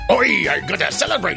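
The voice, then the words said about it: Attempted Irish accent, sounds pirate-like. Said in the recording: “You sound a little pirate-ish. ... But that sounds pretty much like Irish, not pirate. ... I'd say a little more pirate than Irish.”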